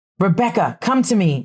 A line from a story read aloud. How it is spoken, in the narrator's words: shouted Abigail